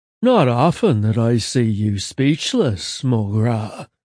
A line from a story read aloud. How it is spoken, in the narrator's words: Simeon purred, seductive lilt on full force